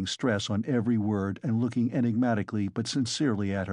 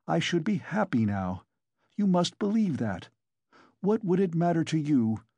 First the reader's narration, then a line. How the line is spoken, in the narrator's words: he cried with a sort of despair